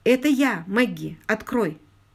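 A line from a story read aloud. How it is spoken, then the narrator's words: Quick. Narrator (Russian): быстро произнес он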